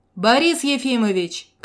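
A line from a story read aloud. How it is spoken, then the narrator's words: Young man shouting. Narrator (Russian): крикнул парень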